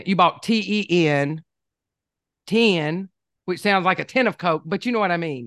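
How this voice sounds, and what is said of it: Southern US accent. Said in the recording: “in my Southern accent”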